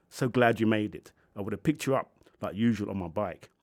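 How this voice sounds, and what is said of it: Character voice, Italian accent. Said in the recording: “a voice with an Italian accent.”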